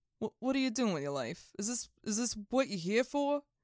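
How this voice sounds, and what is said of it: Put-on Queens accent. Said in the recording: “So apparently my Queens accent is just Andrew Dice Clay.”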